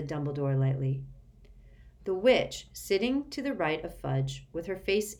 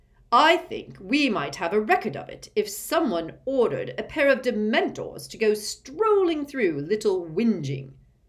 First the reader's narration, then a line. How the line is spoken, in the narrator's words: barked Fudge